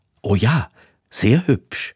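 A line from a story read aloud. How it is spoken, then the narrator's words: Stammering. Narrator (German): stammelte Hector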